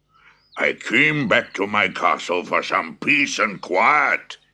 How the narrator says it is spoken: thundered

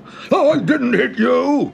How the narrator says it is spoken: bellowed the second ogre

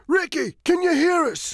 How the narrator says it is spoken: shouts Tony

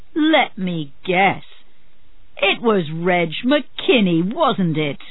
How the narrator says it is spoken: Marlowe laughed

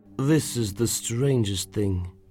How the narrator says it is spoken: muttered

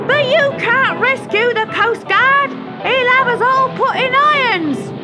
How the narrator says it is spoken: screeched Julius Figwig after her

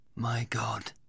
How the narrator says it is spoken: he whispered

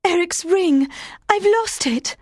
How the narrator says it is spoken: Christine cried

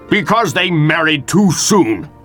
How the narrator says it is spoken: snapped Capulet

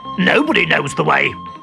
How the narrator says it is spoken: growled Boga

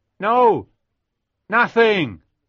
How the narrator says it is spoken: I shouted back

